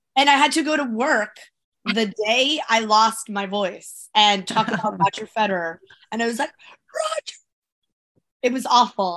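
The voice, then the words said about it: Raspy voice. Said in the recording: “her very raspy voice. It has not subsided. I have had this raspy voice for a week.”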